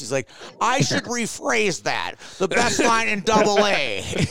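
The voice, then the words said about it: Imitates another person's voice. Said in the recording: “You sounded like Chris Farley doing a Tommy Boy impression. ... It was a little bit Tommy Boy”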